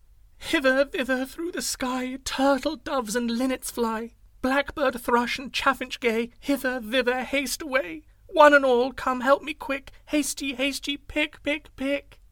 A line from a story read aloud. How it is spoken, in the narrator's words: cried out